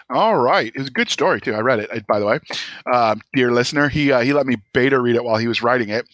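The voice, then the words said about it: Very fast speech. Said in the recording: “doing my micro machine voice where I speak really really fast”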